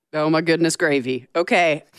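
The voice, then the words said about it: Strong Southern American accent. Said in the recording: “You've never sounded more Southern.”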